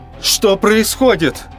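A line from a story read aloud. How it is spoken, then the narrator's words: Yelling with all strength. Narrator (Russian): заорал я, что из сил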